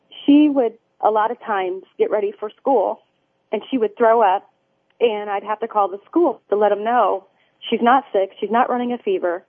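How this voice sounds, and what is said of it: Choked up, emotional voice. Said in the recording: “I get a little choked up on this part.”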